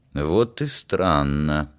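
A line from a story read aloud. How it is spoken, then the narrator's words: Muttered. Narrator (Russian): пробормотал Олег Борисович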